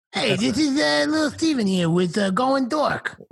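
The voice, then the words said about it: Imitates another person's voice. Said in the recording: “my little Steven impression”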